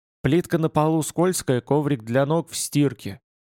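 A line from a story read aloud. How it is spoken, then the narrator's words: Tossed off, turning away. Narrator (Russian): Кинул он, быстро отворачиваясь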